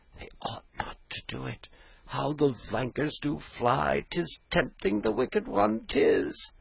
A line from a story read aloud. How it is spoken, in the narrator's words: murmured